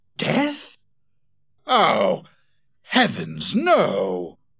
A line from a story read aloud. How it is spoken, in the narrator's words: exclaimed Betteridge